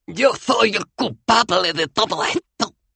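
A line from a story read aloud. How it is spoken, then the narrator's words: Moaning while struggling. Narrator (Spanish): gimió Cohen, luchando inútilmente contra sus ataduras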